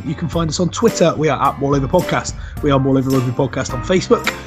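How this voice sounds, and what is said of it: West Country accent. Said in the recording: “all with a West Country accent”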